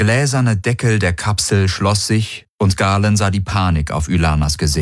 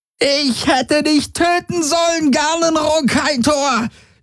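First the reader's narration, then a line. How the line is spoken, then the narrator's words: Shrieking. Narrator (German): kreischte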